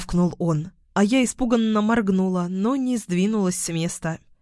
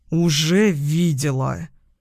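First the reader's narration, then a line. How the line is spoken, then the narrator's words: Growled. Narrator (Russian): прорычал Даниил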